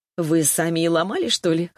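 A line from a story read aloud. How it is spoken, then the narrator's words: Short laugh. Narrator (Russian): хохотнула я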